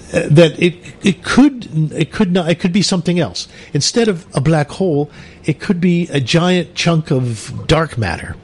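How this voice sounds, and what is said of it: Put-on British accent. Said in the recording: “Could you put it in a British accent, darling?”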